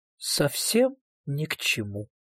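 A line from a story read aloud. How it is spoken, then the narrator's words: Quiet shy voice. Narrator (Russian): тихо и как-то застенчиво произнесла Кармен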